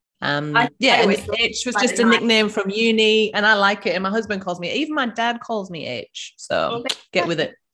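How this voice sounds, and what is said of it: Northeast England accent. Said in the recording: “that's why she has that kind of accent ... I'm from the northeast of England, which is why I've got this very strange accent”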